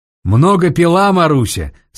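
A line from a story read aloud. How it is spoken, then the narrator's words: Asked in Russian. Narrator (Russian): спросил один по-русски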